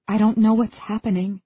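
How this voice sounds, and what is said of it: Small, quiet voice. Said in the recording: “I apologize in a small voice.”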